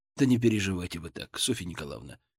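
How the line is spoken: Said softly. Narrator (Russian): мягко сказал

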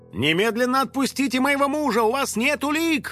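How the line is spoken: Indignant shout, mother. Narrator (Russian): возмущенно закричала мама

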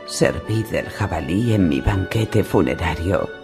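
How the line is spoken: Whispering. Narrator (Spanish): susurró Robert

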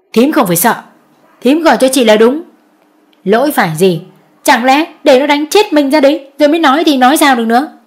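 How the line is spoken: Bitter, sharp. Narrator (Vietnamese): Bà Nguyệt cay gắt

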